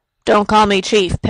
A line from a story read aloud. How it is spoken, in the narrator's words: Perry muttered